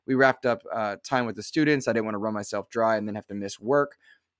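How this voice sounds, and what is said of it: Stuffy, congested voice. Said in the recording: “a bit under the weather, fighting a low-grade fever. And you can probably hear it in my voice, still a little stuffy now.”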